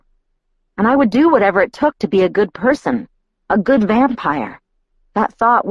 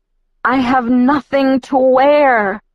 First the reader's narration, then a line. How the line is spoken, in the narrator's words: I moaned to myself